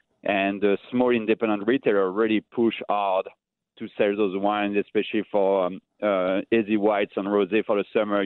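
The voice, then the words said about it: French accent. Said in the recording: “with my accent too, everyone understood that I come from like France”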